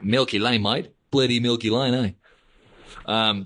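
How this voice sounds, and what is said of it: Poor put-on Australian accent. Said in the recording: “Terrible Aussie accent”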